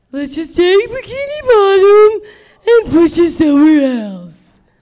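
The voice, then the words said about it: Impression of Patrick Star. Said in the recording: “I'll do an impression. ... Yep, you guessed it. That was Patrick Starr.”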